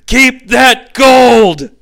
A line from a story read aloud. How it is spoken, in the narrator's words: Beth Fliehr again appears on camera and yells